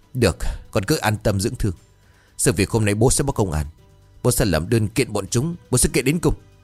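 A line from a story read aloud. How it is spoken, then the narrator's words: Old man harsh stern voice. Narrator (Vietnamese): Ông gằn giọng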